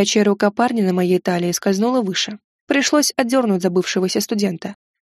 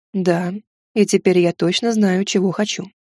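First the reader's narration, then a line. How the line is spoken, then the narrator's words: Plain. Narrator (Russian): ответил Вервольф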